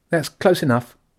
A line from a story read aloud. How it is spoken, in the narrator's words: she said sharply